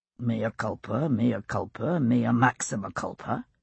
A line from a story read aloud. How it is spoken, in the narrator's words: Jamie murmured in my ear